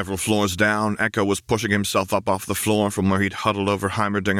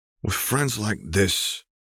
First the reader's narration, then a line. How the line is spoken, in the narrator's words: Echo muttered